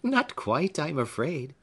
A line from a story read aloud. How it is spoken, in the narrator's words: said Phoebe, laughing at the form of Hepzibah's question